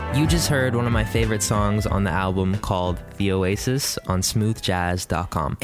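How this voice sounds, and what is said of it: Very deep radio voice. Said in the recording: “the very deep-voiced ... You've got a nice radio voice”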